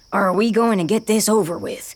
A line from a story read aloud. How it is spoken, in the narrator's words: Ravia growls